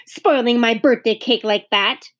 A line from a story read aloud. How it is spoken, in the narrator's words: thought Beezus crossly